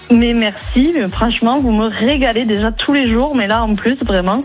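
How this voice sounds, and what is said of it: Toulouse southern French accent. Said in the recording (French): “Ça, c'est l'accent toulousain.”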